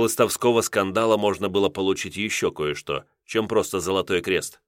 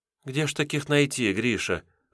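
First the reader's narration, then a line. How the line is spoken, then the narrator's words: Sighing. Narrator (Russian): вздохнула Алекс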